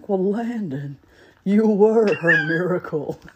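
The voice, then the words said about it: Imitates another person's voice. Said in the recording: “Best impression you've ever done in your life.”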